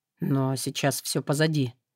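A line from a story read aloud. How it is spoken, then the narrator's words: Quiet remark. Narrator (Russian): тихо заметил демон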